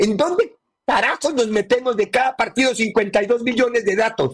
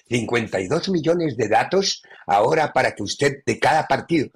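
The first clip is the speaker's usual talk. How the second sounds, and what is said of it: Put-on Spanish (Spain) accent. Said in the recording (Spanish): “además viene con acento español”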